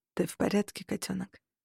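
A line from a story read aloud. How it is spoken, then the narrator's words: Very quiet voice. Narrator (Russian): Голос звучал очень тихо в моих всё ещё невосстановленных ушах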